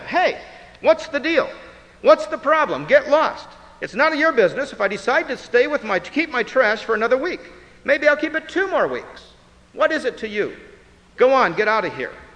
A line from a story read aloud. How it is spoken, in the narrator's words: frustrated, yelled